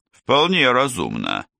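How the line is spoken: Thoughtful. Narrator (Russian): задумчиво ответил Аргроу

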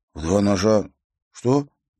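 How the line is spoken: Uncertain question. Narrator (Russian): неуверенно переспросил он

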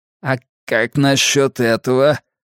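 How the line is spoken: Grumbling. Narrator (Russian): пробурчал Карри

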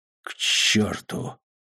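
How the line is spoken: Whisper. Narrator (Russian): прошептала она

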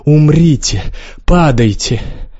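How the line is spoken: Straining wheeze, sobbing scream. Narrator (Russian): захрипела от натуги, потом заплакала, в голос закричала

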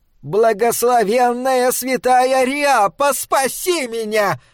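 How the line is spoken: Piercing scream. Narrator (Russian): пронзительно закричала Рэйчел

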